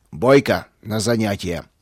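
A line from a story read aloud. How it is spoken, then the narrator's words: Growling. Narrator (Russian): рыкнул он на меня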